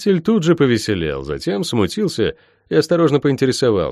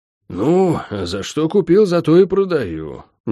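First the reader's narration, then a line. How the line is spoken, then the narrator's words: Slightly offended. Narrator (Russian): несколько обиженно ответил Лерик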